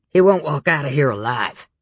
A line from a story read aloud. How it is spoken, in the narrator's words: the leader snapped